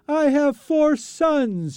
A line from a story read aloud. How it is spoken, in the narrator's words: she cries out